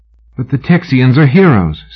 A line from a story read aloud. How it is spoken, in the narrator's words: Sybil said, desperately trying to remember a name